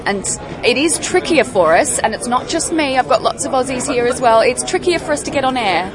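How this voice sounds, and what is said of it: Australian accent. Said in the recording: “I've got an Australian accent”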